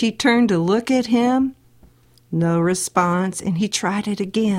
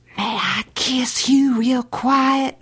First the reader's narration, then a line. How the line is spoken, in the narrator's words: he whispered